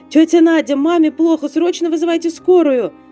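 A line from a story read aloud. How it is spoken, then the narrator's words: Shouted. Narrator (Russian): прокричала Виктория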